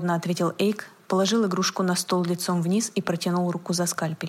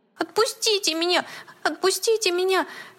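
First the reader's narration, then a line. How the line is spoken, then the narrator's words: Desperate squeal. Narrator (Russian): в отчаянии взвизгнул плюшевый мишка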